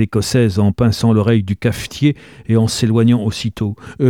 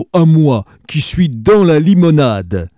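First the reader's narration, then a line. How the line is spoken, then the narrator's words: Exclaiming. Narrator (French): s'exclama Turandot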